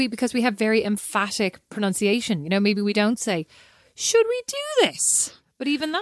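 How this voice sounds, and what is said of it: Usual voice. Nothing is said of it.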